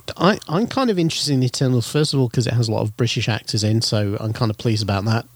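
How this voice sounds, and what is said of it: British accent. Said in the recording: “you're British... That's why the accent's different.”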